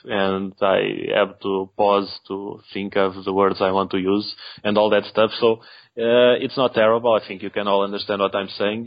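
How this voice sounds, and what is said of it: Portuguese-accented non-native English. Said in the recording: “I'm Portuguese, and I'm the only one from the Saturn Junkyard team who's not a native English speaker ... I know my accent needs improvement ... it's going to sound a bit off”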